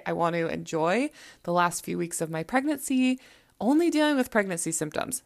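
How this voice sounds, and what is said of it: Slightly hoarse, throaty voice. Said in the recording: “I still am getting over this stupid cold ... you can still kind of hear it in my throat ... I lost my voice for like almost a whole week”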